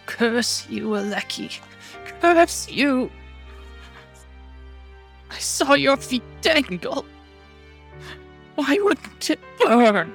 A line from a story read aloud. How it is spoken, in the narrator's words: Petra almost screaming, saying